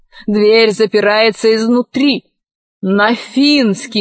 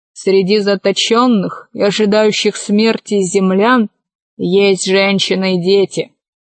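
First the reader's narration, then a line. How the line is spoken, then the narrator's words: Quiet remark. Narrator (Russian): комиссар Милодар негромко заметил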